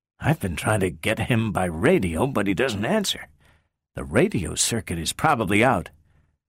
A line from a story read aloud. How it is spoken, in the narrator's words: Powell whispered tensely